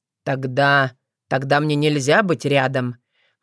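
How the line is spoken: Very gloomy question. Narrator (Russian): мрачно-примрачно спросил Ворон

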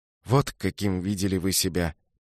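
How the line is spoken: Soft repetition. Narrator (Russian): повторил Пабло мягко

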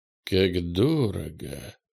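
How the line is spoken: Surprised mutter. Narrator (Russian): пробормотал он, удивленный конечной ценой

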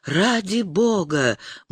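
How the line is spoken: Silent mental plea. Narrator (Russian): мысленно взмолилась она

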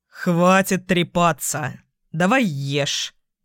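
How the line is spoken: Snorting. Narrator (Russian): хмыкнул Майк

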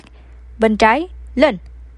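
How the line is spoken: Young man shouting. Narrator (Vietnamese): tiểu tử áo đen lại quát

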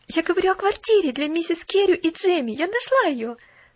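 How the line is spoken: Rapid chatter. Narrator (Russian): тараторила Поллианна

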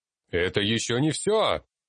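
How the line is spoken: Angry shout. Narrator (Russian): Крикнул я, злясь и на них, и на самого себя

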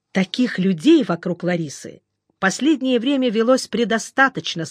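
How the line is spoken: Angry. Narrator (Russian): сказал Груздев зло

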